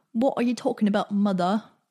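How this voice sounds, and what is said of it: Bad put-on British accent. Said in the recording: “That was my terrible British accent ... just how bad it is. Apparently, it's not believable at all”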